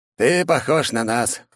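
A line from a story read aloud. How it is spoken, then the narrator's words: Snorting. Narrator (Russian): хмыкнул он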